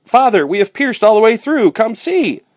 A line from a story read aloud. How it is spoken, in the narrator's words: Jack cried out